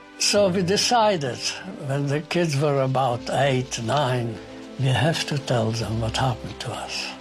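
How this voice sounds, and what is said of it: Non-native funny accent. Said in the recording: “why do you speak with a funny accent?”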